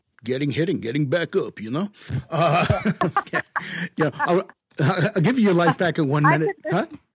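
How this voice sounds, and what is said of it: Puts on an accent. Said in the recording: “I could listen to you do that accent all day. That's wonderful.”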